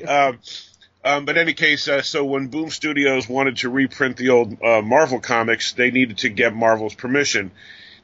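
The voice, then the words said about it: Congested, nasal voice. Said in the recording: “I have a cold ... we're going to sound like basically a commercial for like nasal medication.”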